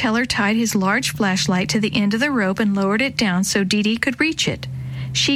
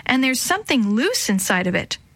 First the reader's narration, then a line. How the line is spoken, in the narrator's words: she yelled